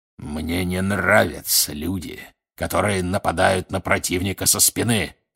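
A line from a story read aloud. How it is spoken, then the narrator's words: Growling. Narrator (Russian): рычал Грюм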